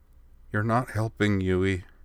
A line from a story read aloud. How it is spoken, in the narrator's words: Mio mumbled from behind her hand